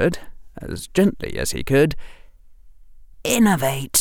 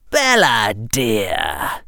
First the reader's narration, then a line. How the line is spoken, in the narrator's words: Harry said in his cold, high voice